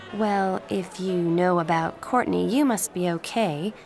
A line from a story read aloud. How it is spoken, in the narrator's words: the girl said